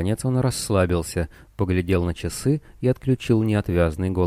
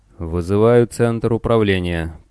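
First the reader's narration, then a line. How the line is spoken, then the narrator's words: Official tone into microphone. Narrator (Russian): произнес он в микрофон официальным тоном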